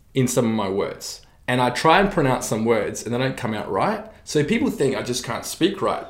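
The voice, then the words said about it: Slight New Zealand accent. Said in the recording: “Still got this like little Kiwi accent ... I've got a little bit of Kiwi accent ... the Kiwi vowels are so different”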